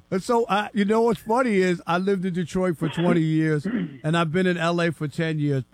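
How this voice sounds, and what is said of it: New York accent. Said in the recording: “I love your accent, being like from out east ... It sounds like my cousin Vinny ... the New York accent just won't go anywhere”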